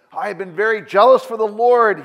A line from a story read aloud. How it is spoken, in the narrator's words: cried out